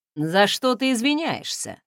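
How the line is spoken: Snorting. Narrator (Russian): хмыкнул он

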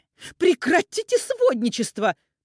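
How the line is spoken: Sharp rebuke, mother. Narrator (Russian): прикрикнула на нее мать Ивана

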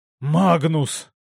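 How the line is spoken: Hoarse wheeze. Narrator (Russian): прохрипел Син

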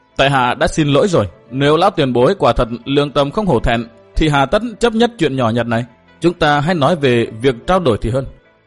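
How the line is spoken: Smiling, speaking. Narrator (Vietnamese): mỉm cười nói

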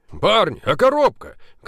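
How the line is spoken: Shouted after them. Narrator (Russian): крикнул им вдогонку Поляковский

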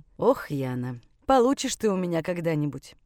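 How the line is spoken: Sighing. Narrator (Russian): Вздохнул отец

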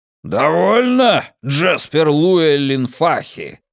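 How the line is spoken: Roared, man. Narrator (Russian): проревел мужчина

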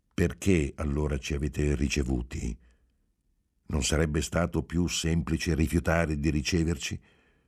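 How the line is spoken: Reasonable tone. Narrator (Italian): Riprese in tono ragionevole

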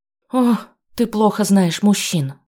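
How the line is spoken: Sad chuckle. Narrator (Russian): грустно усмехнулась Алинка

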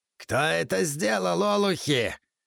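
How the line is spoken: Menacing roar. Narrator (Russian): грозно взревел он

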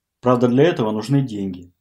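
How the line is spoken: Sighing. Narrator (Russian): вздохнула Лена

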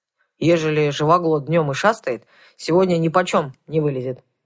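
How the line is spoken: Grumble, mouth full. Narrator (Russian): проворчал Кузьма с набитым ртом

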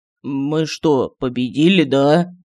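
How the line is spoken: Weak, disbelieving question. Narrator (Russian): Словно не веря в случившееся, слабым голосом спросил Мар

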